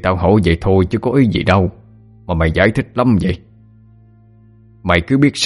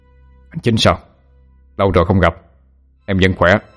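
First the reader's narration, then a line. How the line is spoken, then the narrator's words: Deep hoarse voice, phone. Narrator (Vietnamese): Đầu dây bên kia ồm ồm trả lời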